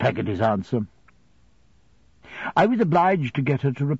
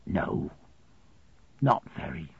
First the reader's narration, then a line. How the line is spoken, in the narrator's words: Peggotty crying softly on her side of the keyhole, before she answered